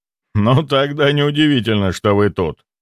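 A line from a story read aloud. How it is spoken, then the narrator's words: Laughing. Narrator (Russian): рассмеялся имперец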